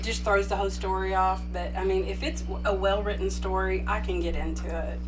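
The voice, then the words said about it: Texas accent. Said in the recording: “My horrible Texas accent”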